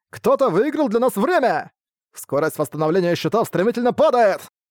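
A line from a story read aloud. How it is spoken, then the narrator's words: Shout. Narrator (Russian): Арк крикнул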